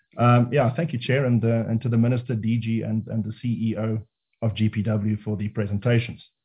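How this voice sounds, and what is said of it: Sore, strained voice. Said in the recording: “My voice is a bit, my throat is a bit sore, so apologize if I splutter from time to time”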